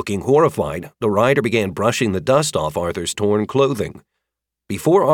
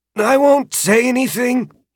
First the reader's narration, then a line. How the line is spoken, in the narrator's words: rasped, having gotten most of his breath back